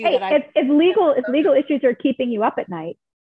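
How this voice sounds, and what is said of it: Polished radio-commercial announcer voice. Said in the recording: “You sound like a commercial there. You sound like you could do this for a living.”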